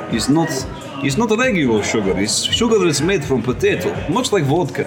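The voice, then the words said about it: Put-on Eastern European Russian accent. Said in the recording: “I have a Russian. ... Mine is definitely more Eastern. Eastern European / Russian.”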